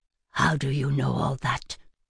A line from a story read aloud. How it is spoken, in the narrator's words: His voice turned raspy as he asked